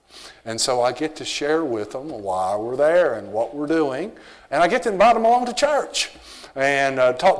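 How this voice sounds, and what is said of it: Strong American Southern accent. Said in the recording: “my southern accent ... I still have the strong accent”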